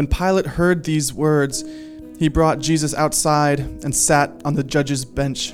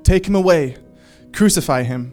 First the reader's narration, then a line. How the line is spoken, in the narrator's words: They cried out